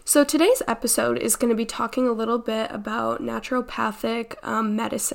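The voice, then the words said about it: Congested, stuffed-up voice. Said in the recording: “I am a little bit congested, a little bit sick... I'm just a little congested... I sound a little stuffed up”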